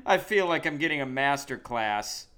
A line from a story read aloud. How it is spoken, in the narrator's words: she laughs and she's like